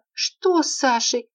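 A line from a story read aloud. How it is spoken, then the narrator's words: Frightened outburst. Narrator (Russian): Испуганно вырвалась у Марины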